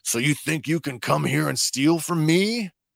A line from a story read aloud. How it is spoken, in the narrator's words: Mako waves his arms as he shouts